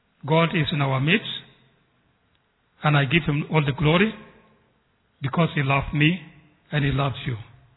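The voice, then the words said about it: Foreign accent in English. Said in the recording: “the language, the accent that I'm speaking, I apologize to who will not understand me well, because I come from across the ocean. I come from very far.”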